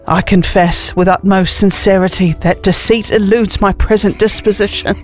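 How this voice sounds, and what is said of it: Put-on accent, formal old-fashioned phrasing. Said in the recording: “The accent's fantastic.”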